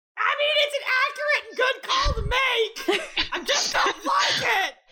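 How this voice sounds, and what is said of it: Angry, raging shouting voice. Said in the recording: “I have to deliver on the level of rage! ... the level of rage happening ... I'm agreeing with you just in an angry voice!”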